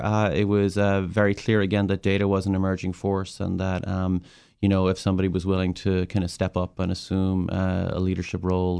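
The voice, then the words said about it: Irish accent. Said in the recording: “accent, is Irish”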